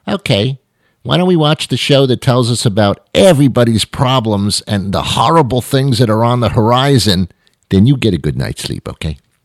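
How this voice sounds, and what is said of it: Mock impression of a wife. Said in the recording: “my impression of a wife, by the way. It's not a great impression.”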